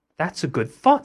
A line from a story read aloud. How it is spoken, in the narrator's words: said the thieves